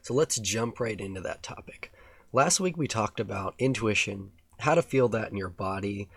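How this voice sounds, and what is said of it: Raspy voice. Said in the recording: “excuse my raspy voice”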